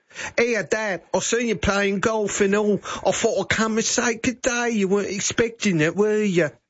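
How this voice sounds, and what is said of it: Put-on English accent. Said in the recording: “Do you reckon she came back with an English accent?”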